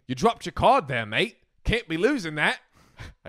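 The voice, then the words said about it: Poor put-on Australian accent. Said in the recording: “I guess he's Australian. Okay. A terrible Australian accent.”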